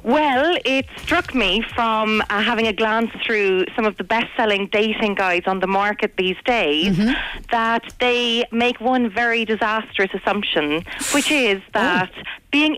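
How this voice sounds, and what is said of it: Irish Cork accent. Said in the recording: “a little twinkle in your accent ... originally from Cork”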